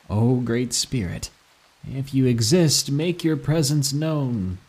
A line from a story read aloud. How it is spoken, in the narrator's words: I said sarcastically to the grave